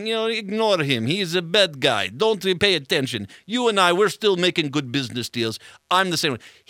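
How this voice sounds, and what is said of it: Weak Russian accent, Boris Badenov-like. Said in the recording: “you just made him sound like Boris Badenov. ... my Russian accent, not so good.”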